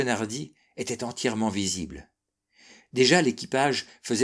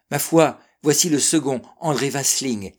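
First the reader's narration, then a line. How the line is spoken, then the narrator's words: Exclaiming. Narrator (French): s'écria Clairbeau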